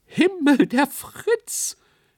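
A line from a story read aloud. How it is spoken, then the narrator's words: Shrieking from stage. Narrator (German): kreischte jemand auf der Bühne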